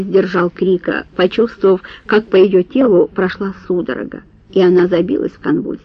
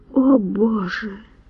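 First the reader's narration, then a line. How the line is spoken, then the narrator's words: Weak, limp whisper. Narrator (Russian): прошептала она бессильно обмякнув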